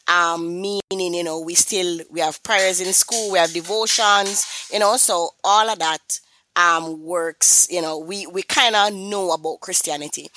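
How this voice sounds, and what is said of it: Jamaican accent. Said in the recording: “I am from Kingston, Jamaica, and, you know, persons might say, that accent sound a little bit familiar.”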